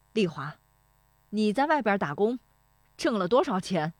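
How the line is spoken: Loud voice. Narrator (Chinese): 石德昌说这话的嗓门很响

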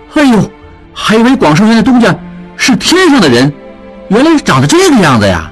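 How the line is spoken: Crowd clamoring. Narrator (Chinese): 众人跟着嚷嚷

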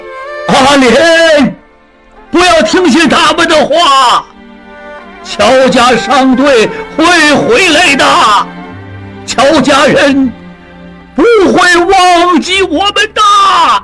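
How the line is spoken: Old man shouting. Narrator (Chinese): 爷爷的叫喊

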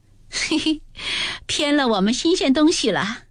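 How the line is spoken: Laughing. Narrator (Chinese): 宝钗 笑道

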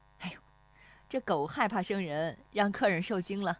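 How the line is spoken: Woman, laughing. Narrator (Chinese): 那妇女 对石丽华笑

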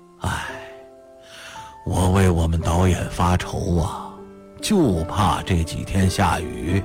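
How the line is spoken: Father sighing, slow. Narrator (Chinese): 父亲叹了口气，许久才听他说

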